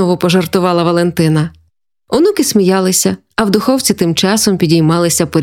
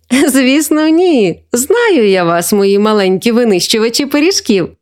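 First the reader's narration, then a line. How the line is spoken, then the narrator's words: Old woman laughing. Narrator (Ukrainian): засміялася бабуся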